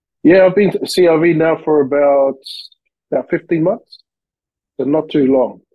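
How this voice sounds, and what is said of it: Australian accent. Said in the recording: “You have the cool Aussie accent”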